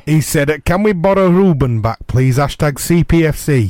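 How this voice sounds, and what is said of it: Put-on Yorkshire accent. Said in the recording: “I don't know why I spoke in that kind of Yorkshire accent.”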